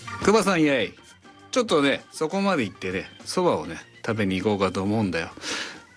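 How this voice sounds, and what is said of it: Rakugo storyteller character voice. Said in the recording (Japanese): “落語のおそばを食べるのをやってほしいです ... 落語家さんのようにうまくできるでしょうか”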